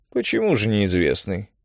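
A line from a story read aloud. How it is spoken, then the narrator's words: Quiet, spoken softly. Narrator (Russian): проговорил священник тихо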